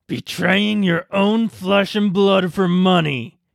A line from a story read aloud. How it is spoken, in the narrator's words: he growled, his teeth clenched together